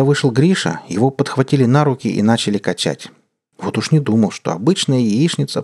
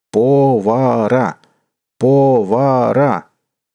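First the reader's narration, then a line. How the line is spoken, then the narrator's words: Group shouting, forks banging. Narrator (Russian): Пятеро сталкеров громко стучали вилками по дощатому столу и кричали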